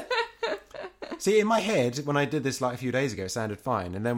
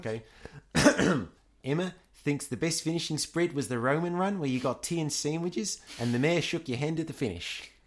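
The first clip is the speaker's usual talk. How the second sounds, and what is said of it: Attempted New Zealand accent, unconvincing. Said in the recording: “I get to practice my New Zealand accent again ... I think you need more practice.”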